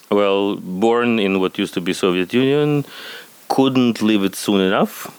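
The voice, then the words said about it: Heavy Russian accent. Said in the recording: “my heavy Russian accent”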